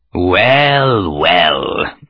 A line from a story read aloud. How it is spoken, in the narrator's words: said a drawling voice